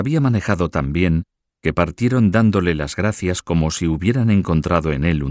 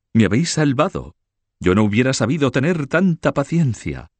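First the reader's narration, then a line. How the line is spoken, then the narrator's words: Countess exclaiming. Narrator (Spanish): exclamó la condesa Mao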